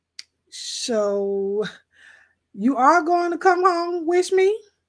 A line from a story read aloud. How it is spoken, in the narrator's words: slurred